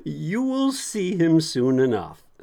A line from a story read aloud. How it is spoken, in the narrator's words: Jesus smiled and said with a little laugh